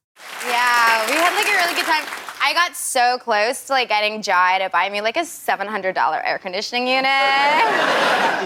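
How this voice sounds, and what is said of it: Exaggerated American Valley Girl accent. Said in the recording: “my American accent kind of changed a little bit into Callie from the Valley ... the Valley Girl accent ... she is uncannily good”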